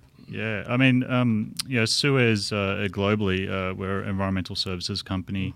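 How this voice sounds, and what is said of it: Slight Australian accent. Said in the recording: “We're already detecting a little bit of an accent ... g'day everyone for all those Aussies out there.”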